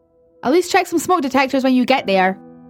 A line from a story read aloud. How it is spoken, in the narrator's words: I shouted after her